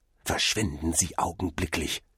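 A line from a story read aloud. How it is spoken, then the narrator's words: Hiss. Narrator (German): zischte der Kellner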